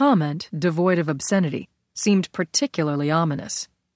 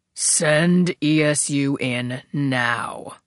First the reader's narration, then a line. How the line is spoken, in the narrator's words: Barkley growled, as if he wasn't used to repeating himself